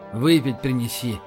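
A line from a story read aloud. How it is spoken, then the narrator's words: Very quiet. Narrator (Russian): сказал Рашин очень тихо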